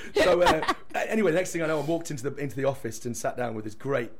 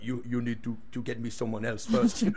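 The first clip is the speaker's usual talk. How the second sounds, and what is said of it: Imitated accent of a former boss. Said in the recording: “Brilliant accent. Excellent.”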